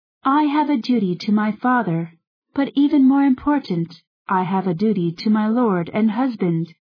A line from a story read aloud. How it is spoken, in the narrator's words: she said